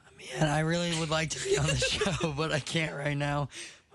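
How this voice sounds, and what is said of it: Hoarse, nearly lost voice. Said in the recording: “He can't talk because he lost his voice. ... My voice is kind of messed up.”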